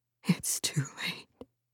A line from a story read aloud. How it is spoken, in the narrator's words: the woman whispered